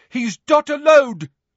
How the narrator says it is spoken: shouted a voice from above them

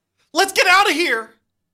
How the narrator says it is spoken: You scream

